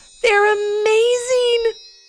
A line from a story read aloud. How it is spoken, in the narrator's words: exclaimed Ivy